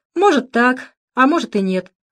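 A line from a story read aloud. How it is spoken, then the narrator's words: Evasive, dismissive snort. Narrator (Russian): хмыкнул Володя, давая понять другу, что не хочет об этом говорить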